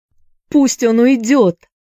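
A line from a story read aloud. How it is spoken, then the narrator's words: Shouting. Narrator (Russian): закричала Констанция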